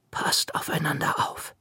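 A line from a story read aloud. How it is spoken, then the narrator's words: Whispering. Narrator (German): flüsterte sie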